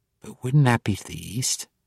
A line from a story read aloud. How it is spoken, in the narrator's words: She whispered, more to herself than to the others